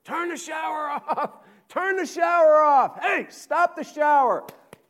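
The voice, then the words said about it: Yelling. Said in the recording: “I'm yelling”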